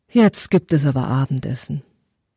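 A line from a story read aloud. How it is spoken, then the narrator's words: Mother's deep sigh. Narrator (German): Seine Mutter seufzte tief und sagte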